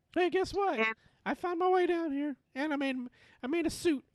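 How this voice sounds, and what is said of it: Imitates another person's voice. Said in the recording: “Is that your Alicia Silverstone impression?”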